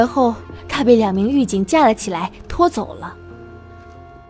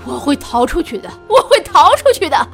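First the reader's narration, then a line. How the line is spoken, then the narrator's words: Loud shout. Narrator (Chinese): 他大喊道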